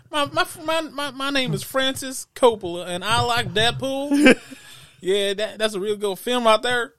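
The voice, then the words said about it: Mock impression in Southern accent. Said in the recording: “Like a southern? ... Yeah, real southern.”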